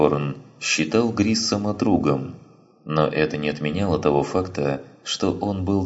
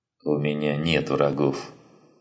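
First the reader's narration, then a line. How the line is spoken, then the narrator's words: Mutter. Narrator (Russian): пробормотал Грисом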